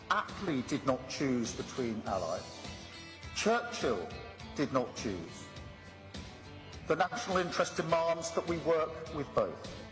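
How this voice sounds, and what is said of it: British accent. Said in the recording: “I love a British accent, don't you?”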